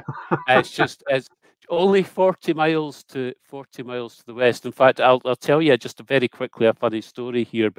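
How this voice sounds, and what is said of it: Cultured accent. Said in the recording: “I love your cultured accent.”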